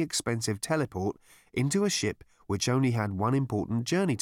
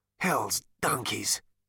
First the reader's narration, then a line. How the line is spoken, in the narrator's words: muttered Zaphod